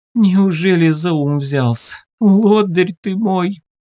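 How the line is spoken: Sobbing speech. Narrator (Russian): между всхлипываниями говорила она

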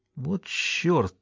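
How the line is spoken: Muttered. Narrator (Russian): пробормотал Райм

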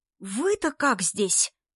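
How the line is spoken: Indignant whisper. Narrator (Russian): возмутился Вовка шепотом

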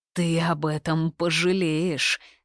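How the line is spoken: Growled. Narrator (Russian): зарычал

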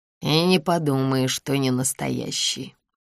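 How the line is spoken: Grumbling. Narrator (Russian): проворчал Максим Георгиевич

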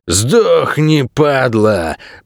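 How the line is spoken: Strangled hiss. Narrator (Russian): прошипел он сдавленным голосом

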